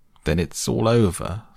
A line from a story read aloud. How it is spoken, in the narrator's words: sobbed the toad, crying into sofa cushions